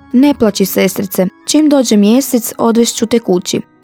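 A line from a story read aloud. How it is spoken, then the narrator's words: Comforting, soothing. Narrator (Croatian): Ivica je počne tješiti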